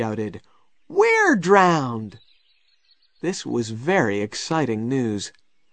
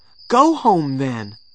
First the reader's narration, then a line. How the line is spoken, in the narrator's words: said Tom angrily